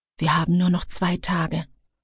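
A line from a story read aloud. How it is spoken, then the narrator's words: Hoarse whisper. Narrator (German): flüsterte er mit heiserer Stimme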